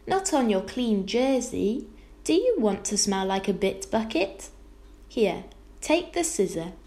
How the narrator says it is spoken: exclaimed Homily

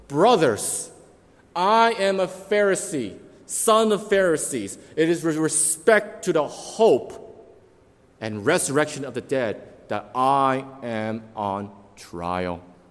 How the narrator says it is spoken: he cried out to the council

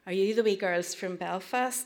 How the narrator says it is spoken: asked

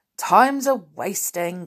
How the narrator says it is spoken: Grumpy muttered

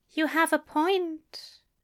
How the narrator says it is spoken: he said softly

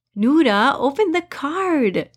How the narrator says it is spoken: Siru said eagerly

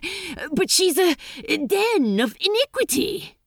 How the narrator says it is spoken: said Crowley desperately, grabbing at straws now

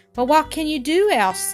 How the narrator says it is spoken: gasped Jock

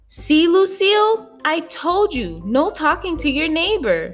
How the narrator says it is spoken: hollered

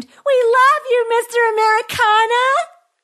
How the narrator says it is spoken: Another screamed

